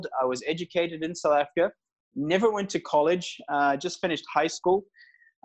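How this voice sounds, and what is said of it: South African accent. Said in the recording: “Then immigrated to South Africa. So that's probably where you hear the accent from when I was 6 years old.”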